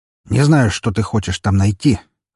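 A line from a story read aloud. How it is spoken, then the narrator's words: Snorting. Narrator (Russian): хмыкнул следователь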